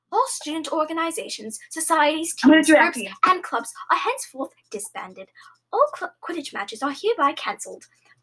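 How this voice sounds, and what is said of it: Fancy put-on British accent. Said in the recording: “Like an extra fancy version of your voice ... the British accent”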